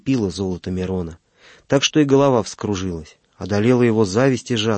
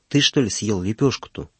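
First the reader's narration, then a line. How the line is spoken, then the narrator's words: Old man whispering. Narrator (Russian): шепнул ему старик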